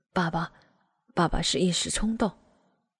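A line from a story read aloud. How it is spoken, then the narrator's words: Embarrassed mumble. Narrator (Chinese): 爸爸的脸越发涨红，嘟囔着，老实的承认着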